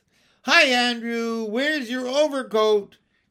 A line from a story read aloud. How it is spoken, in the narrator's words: cried Michael, trying to make a high, windy voice like Miss Lark's